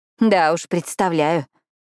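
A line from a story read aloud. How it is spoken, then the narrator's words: Nervous laugh. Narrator (Russian): нервно хохотнула Кара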